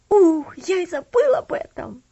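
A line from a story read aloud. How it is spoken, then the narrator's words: Exclamation. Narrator (Russian): воскликнул Джос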